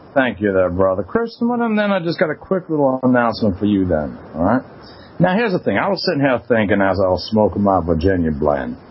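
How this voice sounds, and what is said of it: Southern gentleman accent. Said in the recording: “It's this new accent. ... now you sound like a southern gentleman. ... Your entire tone and demeanor has changed.”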